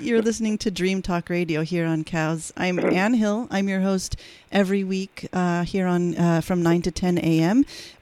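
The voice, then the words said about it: Slightly hoarse voice. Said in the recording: “slightly hoarse, as you can tell, from shoveling all that snow.”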